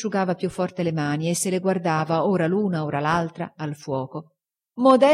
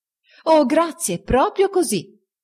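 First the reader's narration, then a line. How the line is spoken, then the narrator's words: Exclaimed. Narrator (Italian): esclamò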